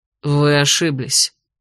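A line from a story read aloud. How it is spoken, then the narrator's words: Cold declaration. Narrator (Russian): холодно заявил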